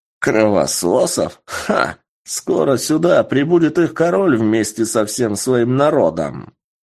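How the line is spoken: Laughing. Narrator (Russian): Рассмеялся пришелец

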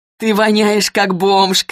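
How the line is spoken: Shouting while laughing. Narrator (Russian): крикнула она, смеясь

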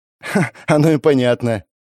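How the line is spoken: Giggling. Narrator (Russian): хихикнула Света

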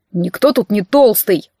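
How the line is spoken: Joyful deep voice. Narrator (Russian): пробасил Миронович, светясь от радости

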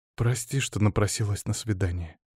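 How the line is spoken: Quiet. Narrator (Russian): тихо проговорила графиня

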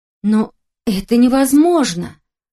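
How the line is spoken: Horrified exclamation. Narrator (Russian): в ужасе воскликнула я

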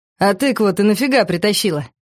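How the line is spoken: Sudden chuckle, nearly choking. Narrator (Russian): Вдруг хохотнул Витя, едва не подавившись пивом

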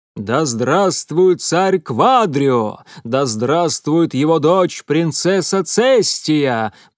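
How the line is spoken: Thundering chorus of riders. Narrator (Russian): прогремели хором всадники

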